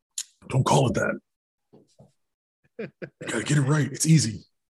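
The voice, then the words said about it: Imitates another person's voice. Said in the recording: “my impression of you, by the way ... the best and worst impression of me”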